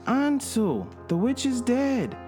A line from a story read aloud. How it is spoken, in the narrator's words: cried Gretel